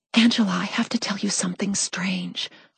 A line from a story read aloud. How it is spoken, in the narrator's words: I whispered, concerned that people might be listening in, thinking I was crazy